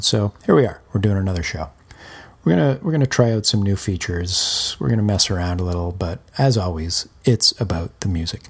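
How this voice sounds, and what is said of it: Slightly hoarse, rough voice. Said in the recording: “apologies for the voice. I'm a little bit hoarse ... after a long run, I end up sort of straining a little bit vocally. So a little rough in the voice today”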